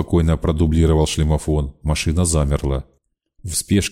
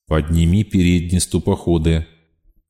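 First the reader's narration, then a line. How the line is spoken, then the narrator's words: Calm, commanding voice. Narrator (Russian): спокойно, властно произнес знакомый голос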